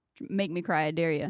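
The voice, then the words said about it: Strong Southern country accent. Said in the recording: “I'm from the South and my partner's from South Carolina. And you sounded so country just then.”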